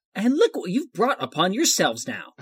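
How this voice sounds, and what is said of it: Disappointed mom voice. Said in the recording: “he drops the accent for that line... That sounded more like just a disappointed mom”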